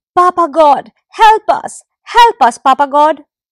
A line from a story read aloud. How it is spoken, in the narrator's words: the animals cried out together